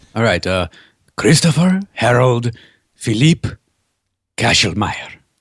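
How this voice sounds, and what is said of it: Put-on French accent. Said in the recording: “in his French accent”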